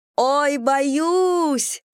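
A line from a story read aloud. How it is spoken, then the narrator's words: Frightened wail. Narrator (Russian): завопила Анна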